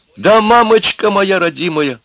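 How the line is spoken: Shouting. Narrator (Russian): закричала Люба

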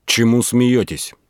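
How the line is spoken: Angry question. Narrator (Russian): сам Передонов спросил злым голосом

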